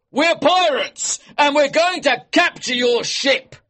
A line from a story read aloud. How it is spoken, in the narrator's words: he shouted